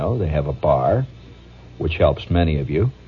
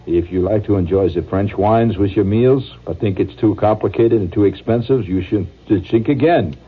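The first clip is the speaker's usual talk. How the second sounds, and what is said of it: Put-on French accent. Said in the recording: “reading a French accent”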